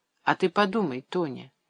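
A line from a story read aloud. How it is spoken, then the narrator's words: Soft. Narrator (Russian): мягко говорил он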